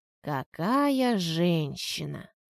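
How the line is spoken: Admiring exhale. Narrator (Russian): восхищенно выдохнул Саша

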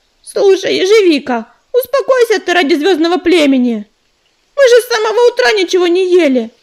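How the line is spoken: Exclaimed. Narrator (Russian): воскликнула она

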